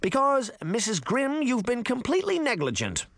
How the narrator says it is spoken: the caseworker barked

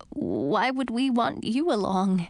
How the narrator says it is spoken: Edric asked, his voice quavering

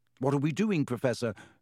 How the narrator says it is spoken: said Ron, nervously suppressing a burp

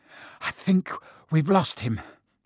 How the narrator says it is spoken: Harry panted

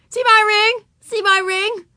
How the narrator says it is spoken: shouted Ramona

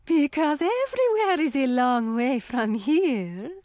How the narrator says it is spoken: Sully replied, laughing

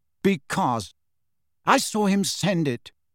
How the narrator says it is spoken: said Cho angrily

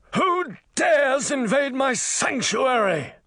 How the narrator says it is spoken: A horrible voice bellowed

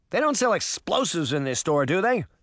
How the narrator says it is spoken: Puck shouted as he dodged the creature's massive arm

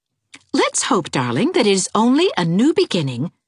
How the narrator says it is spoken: said Anne cheerfully

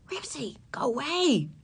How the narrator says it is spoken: ordered Ramona in a whisper

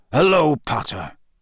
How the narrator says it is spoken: growled Moody

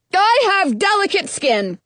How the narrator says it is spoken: Ralph yells

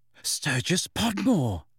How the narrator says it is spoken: said Hermione breathlessly

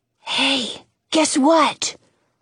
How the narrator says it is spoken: Jonah whispers

